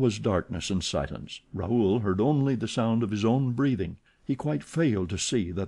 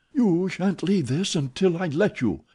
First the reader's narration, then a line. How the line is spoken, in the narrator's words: he exclaimed